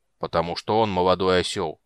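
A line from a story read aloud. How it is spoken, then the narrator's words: Grumbling. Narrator (Russian): проворчал Флинт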